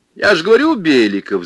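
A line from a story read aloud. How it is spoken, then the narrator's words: Laughing. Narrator (Russian): засмеялся директор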